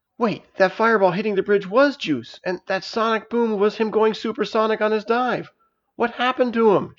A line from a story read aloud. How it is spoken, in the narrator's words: she cried